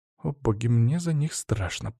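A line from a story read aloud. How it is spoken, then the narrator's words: Frightened mutter. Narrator (Russian): пробормотала Лена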